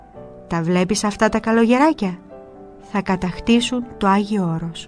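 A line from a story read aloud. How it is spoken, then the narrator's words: Old man, smiling. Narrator (Greek): ο γέροντας και μετά χαμογελώντας του λέει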